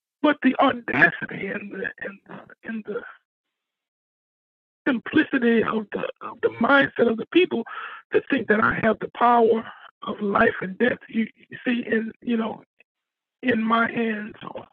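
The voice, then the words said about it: Quivering, shaky voice. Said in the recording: “I'm shivering right now, and you can probably hear in my voice the quivering right now”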